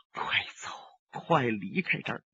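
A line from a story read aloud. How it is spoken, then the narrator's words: Quiet voice. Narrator (Chinese): 李寻欢小声说道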